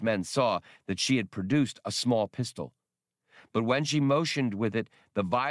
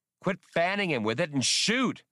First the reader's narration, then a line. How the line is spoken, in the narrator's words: Han yelled